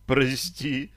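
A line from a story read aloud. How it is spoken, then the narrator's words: Moaned. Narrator (Russian): простонала Таша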